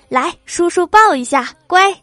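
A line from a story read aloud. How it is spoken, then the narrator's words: Excited new father, habitual. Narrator (Chinese): 初为人父的郭大侠那叫一个激动啊，嘴里还习惯性的说着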